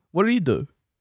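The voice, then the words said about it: Clueless, oblivious character voice. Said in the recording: “That's my impression of a guy who still hasn't turned on the news.”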